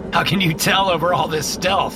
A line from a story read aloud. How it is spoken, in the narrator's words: I laugh